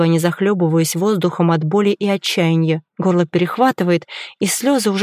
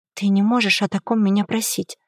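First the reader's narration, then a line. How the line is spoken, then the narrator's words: Barely audible broken whisper. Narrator (Russian): Шепчу едва слышно, чувствуя себя полностью разбитой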